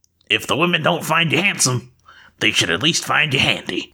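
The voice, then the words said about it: Gruff fantasy dwarf voice. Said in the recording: “I'm looking for a quote to say in a dwarf voice.”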